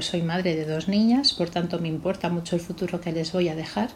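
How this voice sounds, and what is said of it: Spanish accent from Spain. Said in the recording (Spanish): “ahí la teníamos ya con el acento ... desde el otro lado del océano ... desde Valencia, España”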